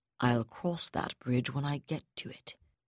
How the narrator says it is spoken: he told her flatly

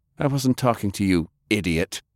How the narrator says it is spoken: Cornelius snapped

